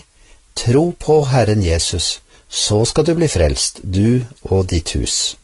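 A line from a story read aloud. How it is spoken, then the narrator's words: Calm reply. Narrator (Norwegian): misjonæren svarte rolig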